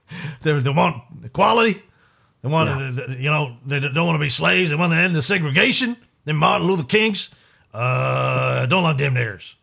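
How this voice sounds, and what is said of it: Redneck American accent impression. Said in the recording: “my Winston Churchill impersonation with a redneck American accent”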